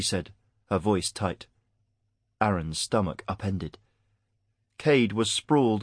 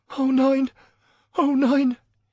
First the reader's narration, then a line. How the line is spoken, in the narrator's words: he was whimpering